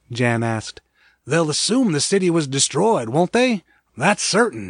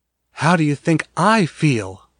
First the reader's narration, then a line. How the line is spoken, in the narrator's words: Mara gasped